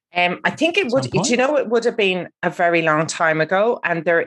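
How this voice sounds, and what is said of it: Irish accent. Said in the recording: “despite the Irish accent”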